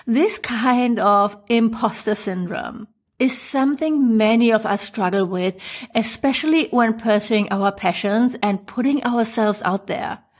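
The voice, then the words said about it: German accent. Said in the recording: “my funny German accent”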